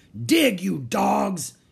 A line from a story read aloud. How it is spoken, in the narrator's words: he shouted